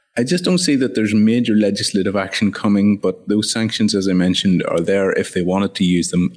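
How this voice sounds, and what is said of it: Strong Irish accent. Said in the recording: “my accent doesn't become even more impenetrable after a few weeks in Ireland”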